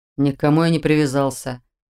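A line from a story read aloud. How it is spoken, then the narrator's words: Mumble. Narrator (Russian): буркнул Шелтер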